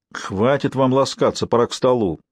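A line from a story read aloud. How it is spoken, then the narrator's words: Little girl mimicking grumpy adult. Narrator (Russian): ворчливым тоном, явно подражая взрослым, позвала щупленькая девчушка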